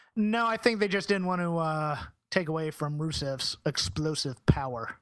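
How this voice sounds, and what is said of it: Usual voice. Nothing is said of it.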